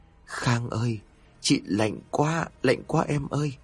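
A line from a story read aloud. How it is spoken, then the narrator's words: Trembling, echoing voice. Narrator (Vietnamese): Chị Huệ tiếp tục nói, giọng của chị run rẩy và vang lên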